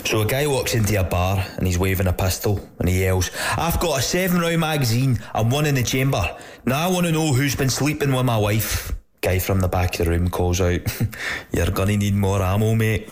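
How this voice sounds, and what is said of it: Put-on Scottish accent. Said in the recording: “I'll put on an accent just for dramatic effect. ... I'm pretty sure there was a Scottish accent. ... he said he was putting on an accent. Oh, so I think it was an Irish guy putting on a Scottish accent.”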